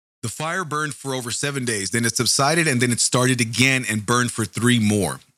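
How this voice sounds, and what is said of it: Strained, worn-out voice. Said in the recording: “my voice sounds a little off today. My voice is killing from the 3-hour marathon I did on the radio”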